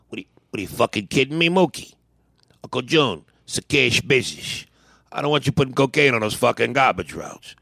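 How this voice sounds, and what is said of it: Tony Soprano mobster character impression. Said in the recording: “Tony Soprano ... You bodied that impression ... You got to say Mookie in that voice.”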